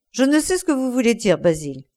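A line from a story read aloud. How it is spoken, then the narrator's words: Exclaimed. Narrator (French): s'écria-t-il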